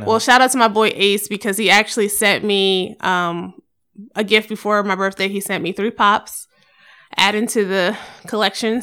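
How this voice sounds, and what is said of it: Tired, slightly rough voice. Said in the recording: “I sound tired. If my voice sounds a little rough.”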